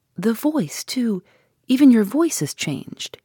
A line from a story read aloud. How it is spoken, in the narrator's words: he said anxiously